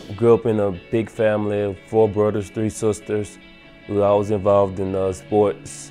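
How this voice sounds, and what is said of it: Small-town country accent. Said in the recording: “I come from a small town, country town. That's, you probably could tell in my accent.”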